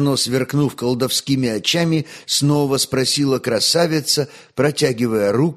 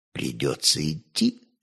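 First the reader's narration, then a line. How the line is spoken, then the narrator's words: Whisper. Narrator (Russian): шепнул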